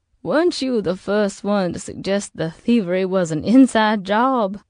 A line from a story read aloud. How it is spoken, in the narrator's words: Jeanne's asked, still laughing to herself